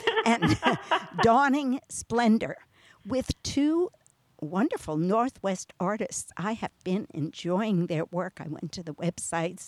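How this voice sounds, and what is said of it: New York accent. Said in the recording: “I have a New York accent”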